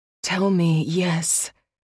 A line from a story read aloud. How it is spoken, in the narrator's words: said huskily